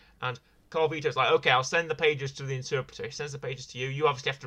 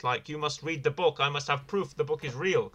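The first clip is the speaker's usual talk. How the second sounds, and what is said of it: Poor put-on French accent. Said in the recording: “that's an awful French accent, by the way. I do my best ... He sounds Russian ... Just imagine this French voice coming out of this Russian...”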